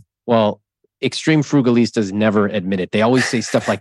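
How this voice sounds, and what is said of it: Usual voice. Nothing is said of it.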